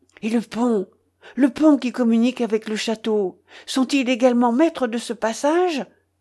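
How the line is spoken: Exclaimed. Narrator (French): s'écria Ivanhoé

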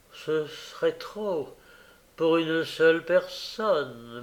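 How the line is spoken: Woman murmuring. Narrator (French): murmura la dame

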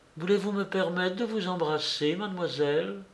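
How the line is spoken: Soft, moved and charmed. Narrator (French): émue et charmée, en lui disant doucement

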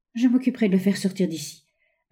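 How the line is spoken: Agitated girl stammering. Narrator (French): balbutia la jeune fille avec agitation

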